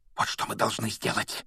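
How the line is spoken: Fervent whisper. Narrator (Russian): горячо прошептал он

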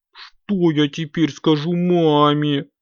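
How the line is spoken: Whimpering. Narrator (Russian): захныкал Компот

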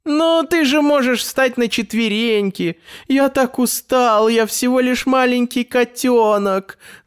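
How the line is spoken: Whining kitten. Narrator (Russian): захныкал Финдус

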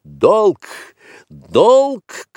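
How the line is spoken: Shout. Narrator (Russian): крикнул Маугли

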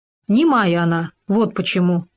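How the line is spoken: Plain. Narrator (Russian): сказал Хома

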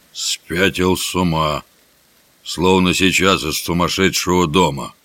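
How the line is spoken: Astonished mutter. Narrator (Russian): С изумлением Джон Кенти пробормотал

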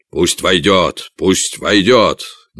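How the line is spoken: Impatient king shouting. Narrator (Russian): нетерпеливо крикнул король

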